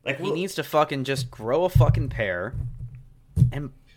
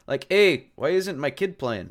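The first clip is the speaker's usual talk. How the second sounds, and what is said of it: Put-on German accent, sounds Russian. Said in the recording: “Everyone's Russian in your accents ... This German accent?”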